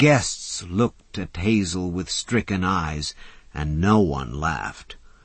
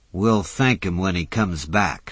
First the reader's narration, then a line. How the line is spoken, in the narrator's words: said Mac grimly